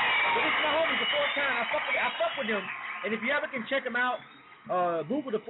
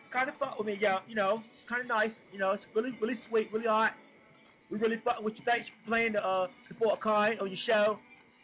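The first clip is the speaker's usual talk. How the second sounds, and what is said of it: Attempted London accent, self-described poor. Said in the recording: “I can't do the London accent ... It kind of talk like that.”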